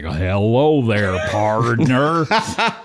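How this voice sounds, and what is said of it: Exaggerated cowboy-style American accent. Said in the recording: “try to do an American accent, they always sound like John Wayne.”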